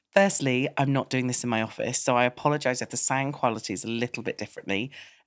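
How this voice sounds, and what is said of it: Congested voice with a cold. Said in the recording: “I'm sure you can hear from my voice that I have got a bit of a cough and a cold”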